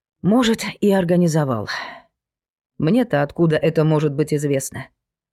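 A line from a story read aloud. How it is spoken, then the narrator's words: Sad sigh. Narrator (Russian): Вздохнула она с грустью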